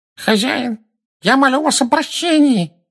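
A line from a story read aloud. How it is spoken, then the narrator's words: Nasal pleading. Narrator (Russian): прогнусавил человек, стоящий на коленях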